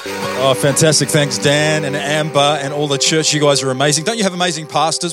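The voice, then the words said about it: New Zealand accent. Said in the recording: “As you can tell by my accent ... I grew up in New Zealand. First 23 years of my life, I lived in New Zealand. Lived in Australia for about 10 or 11 years”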